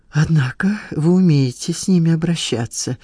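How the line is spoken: Sighing. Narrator (Russian): вздохнула Полина

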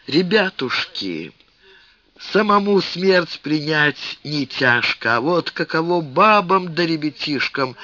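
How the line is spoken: Sighing. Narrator (Russian): вздохнул Семен Шишкин

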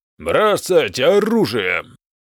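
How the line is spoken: Loud bark. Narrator (Russian): гаркнул лорд Крамбах

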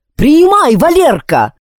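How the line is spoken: Yelling into microphone. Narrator (Russian): вопил в микрофон Алекс

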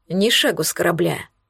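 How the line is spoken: Stern. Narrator (Russian): строго сказал Хаген

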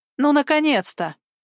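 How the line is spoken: Relieved snort. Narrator (Russian): фыркнула, решив, что дело сдвинулось с мертвой точки

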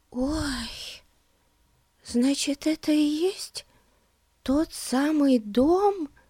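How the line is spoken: Whisper. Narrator (Russian): прошептала Бетси

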